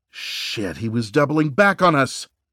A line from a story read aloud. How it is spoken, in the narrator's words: Reese exclaimed